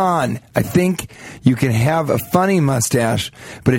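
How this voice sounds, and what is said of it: Usual voice. Nothing is said of it.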